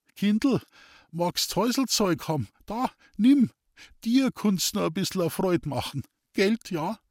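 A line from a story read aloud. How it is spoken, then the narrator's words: Thin laughing voice. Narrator (German): lachte er mit seiner dünnen Stimme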